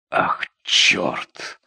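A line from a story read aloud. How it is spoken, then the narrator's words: Excited whisper. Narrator (Russian): возбужденно прошептал Рой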